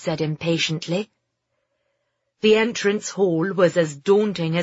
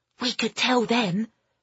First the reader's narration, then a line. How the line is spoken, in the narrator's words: Alfie whispered to Phoebe